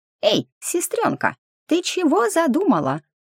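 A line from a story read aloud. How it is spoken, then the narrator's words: Worried squeak. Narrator (Russian): озабоченно пискнул Хомичелло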